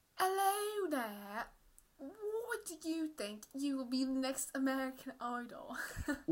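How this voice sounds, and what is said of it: Awful put-on British accent. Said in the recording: “my British accent ... I'm doing, like, an awful British accent”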